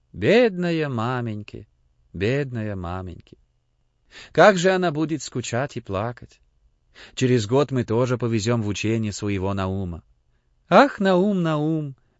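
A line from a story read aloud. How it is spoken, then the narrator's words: Sigh. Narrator (Russian): Вздохнул Моисей Моисеевич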